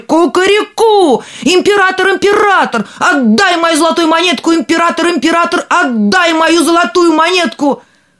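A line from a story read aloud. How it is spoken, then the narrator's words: Rooster crowing louder. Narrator (Russian): петушок закричал еще громче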